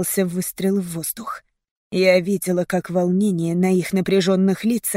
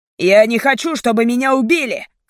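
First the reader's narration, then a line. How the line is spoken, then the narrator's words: Shout. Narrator (Russian): крикнул один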